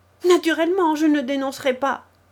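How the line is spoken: Much louder shout. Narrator (French): cria deux fois plus fort le boiteux

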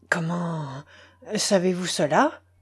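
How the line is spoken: Stammering. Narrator (French): balbutia-t-il

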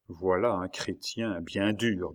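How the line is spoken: Murmuring. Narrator (French): murmura-t-il

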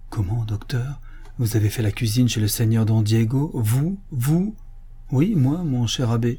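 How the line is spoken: Exclaimed. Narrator (French): il s'écria

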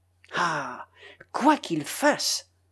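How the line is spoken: Furious murmur. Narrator (French): murmura avec fureur

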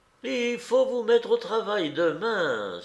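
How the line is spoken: Exclamation. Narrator (French): s'écria-t-elle

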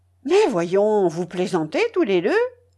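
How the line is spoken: Exclaiming. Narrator (French): s'écria enfin Razoumikine

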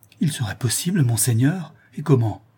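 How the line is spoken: Exclaiming. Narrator (French): s'écria Clémence

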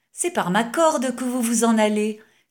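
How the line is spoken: Exclaiming. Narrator (French): s'écria-t-il en voyant Baudouin se suspendre de rechef à la mare pour regagner le vasistas du gymnase

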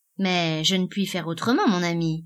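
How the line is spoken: Disdainful tone. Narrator (French): fit Henchard, d'un ton dédaigneux

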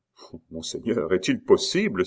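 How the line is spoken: Exclaiming. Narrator (French): s'écria Aurilly

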